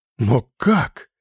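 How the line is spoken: Breathless general. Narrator (Russian): выдохнул генерал

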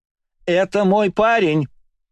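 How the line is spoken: Shouting. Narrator (Russian): кричала Кристина, подпрыгивая на месте

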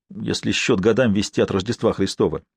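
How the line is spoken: Sharp reply. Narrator (Russian): резко ответил Норман

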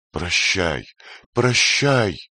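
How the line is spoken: Loud exclamation. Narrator (Russian): громко воскликнула Нехушта, посылая последний привет своей любимой госпоже

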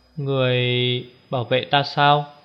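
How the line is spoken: Hesitant question. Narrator (Vietnamese): Tô Liễu ngập ngừng hỏi

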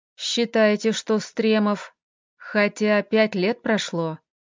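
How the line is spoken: Muttered to himself. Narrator (Russian): пробормотал скорее для себя Артем

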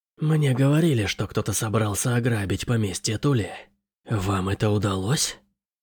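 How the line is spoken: Hoarse, delighted woman. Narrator (Russian): в ее хриплом голосе зазвучал восторг

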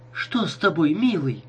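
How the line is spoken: Worried girl asking. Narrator (Russian): обеспокоенным голосом спросила девушка

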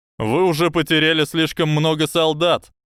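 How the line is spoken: Loud, from behind barrier. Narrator (Russian): громко сказал Финниган из-за барьера

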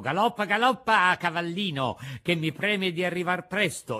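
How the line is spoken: Happy shout. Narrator (Italian): gridò tutto contento

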